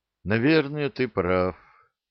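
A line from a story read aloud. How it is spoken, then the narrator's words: Sighing. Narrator (Russian): вздохнул Эннет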